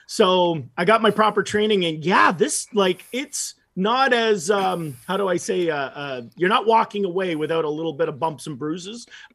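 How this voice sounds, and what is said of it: Slightly scratchy voice. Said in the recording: “my voice is a little scratchy because when you're doing Chris Farley, it's so much energy and so much intensity”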